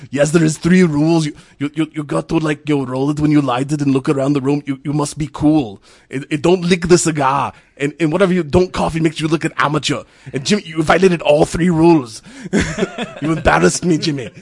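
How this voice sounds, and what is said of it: Arnold Schwarzenegger impression. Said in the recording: “my last Arnold impression ... one of your better impersonations ... My Arnold impersonation gets better with the more bourbon I drink ... you go from Arnold to Swizzard from Metalocalypse, and then back to Arnold”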